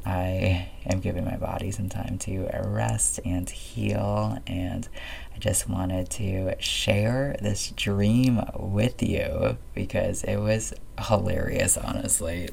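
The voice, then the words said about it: Scratchy voice. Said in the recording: “my voice is a little bit scratchy”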